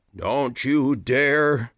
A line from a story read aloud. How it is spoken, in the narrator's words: Peter growled